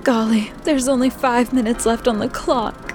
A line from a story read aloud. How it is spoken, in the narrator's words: Ladybug gasped